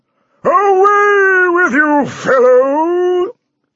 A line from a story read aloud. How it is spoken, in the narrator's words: he shouted